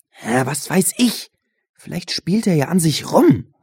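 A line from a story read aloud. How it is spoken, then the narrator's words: Hiss. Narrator (German): zischte Benjamin Josh an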